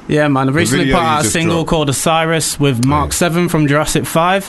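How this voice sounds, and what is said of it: Yorkshire English accent. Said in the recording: “I love the Yorkshire accent.”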